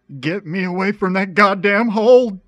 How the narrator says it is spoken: David yelled

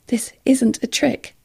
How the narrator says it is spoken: Rob said in a shaking voice

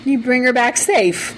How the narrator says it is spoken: Jefferson shouted

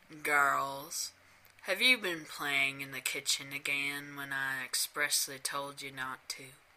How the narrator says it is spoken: he demanded in a drawling voice

